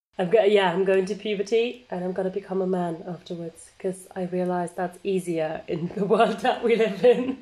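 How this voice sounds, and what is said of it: Voice sounds a bit off. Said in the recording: “I hope you can all understand me today. My voice is a bit off. ... He's going through puberty.”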